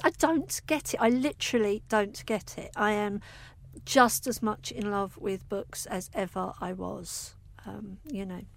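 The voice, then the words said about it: Softened Essex regional accent. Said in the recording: “you can probably hear I've still got a regional accent, but obviously over the years it has modified ... my Essex girl accent”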